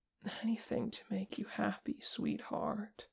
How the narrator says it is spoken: Vegas murmured

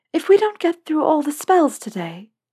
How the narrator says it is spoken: she said, a little nervously

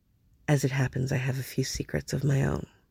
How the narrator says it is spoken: quietly, seriously, and then he said

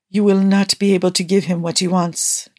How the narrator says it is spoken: Nikki gasped out roughly, his chest still heaving

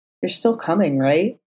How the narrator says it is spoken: he said in a low murmur

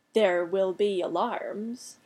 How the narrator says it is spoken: rumbled

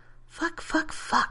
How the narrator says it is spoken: he muttered

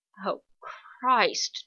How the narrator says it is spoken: John mutters

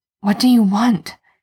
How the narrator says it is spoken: he hisses

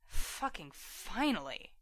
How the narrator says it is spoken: he mutters

